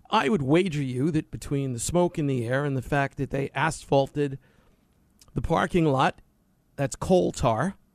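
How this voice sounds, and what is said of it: Hoarse, partly lost voice. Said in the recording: “is a little hoarse ... lost my voice, something I rarely do”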